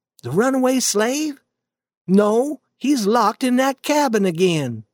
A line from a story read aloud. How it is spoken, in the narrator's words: said Aunt Sally